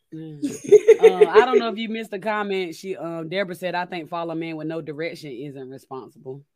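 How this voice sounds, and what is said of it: Hoarse, strained voice. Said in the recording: “my voice is out because of these allergies”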